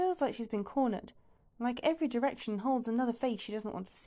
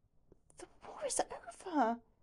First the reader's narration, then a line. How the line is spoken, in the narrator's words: says quietly